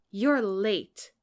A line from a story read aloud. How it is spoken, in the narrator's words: said, jingling furiously